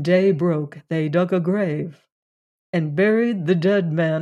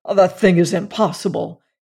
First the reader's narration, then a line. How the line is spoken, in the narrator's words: he cried